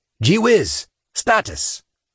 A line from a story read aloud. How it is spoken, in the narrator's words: Saint yelled